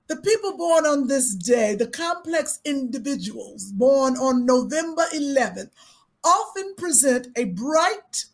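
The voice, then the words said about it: Put-on accent. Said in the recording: “I'm not going to be able to hold this accent”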